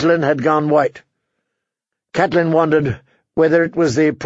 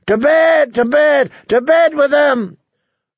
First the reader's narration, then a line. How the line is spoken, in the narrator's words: A score or more of Walder Frey's sons and grandsons began to bang their cups again, shouting